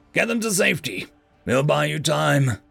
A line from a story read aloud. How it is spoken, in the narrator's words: I yelled